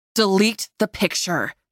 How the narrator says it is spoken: snarled

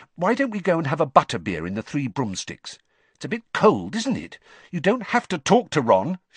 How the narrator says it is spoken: she added irritably

